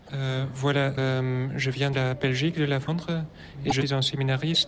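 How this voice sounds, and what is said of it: Slight foreign accent in French. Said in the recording (French): “vous avez un léger accent”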